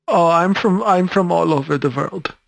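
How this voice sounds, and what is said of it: Slight German accent. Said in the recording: “You have a bit of a German accent,”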